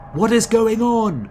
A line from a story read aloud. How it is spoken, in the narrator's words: You yell to Ichitaka over the whistling wind